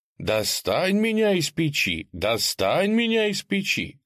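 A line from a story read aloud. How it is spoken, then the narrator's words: Bread shouting. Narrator (Russian): кричал хлеб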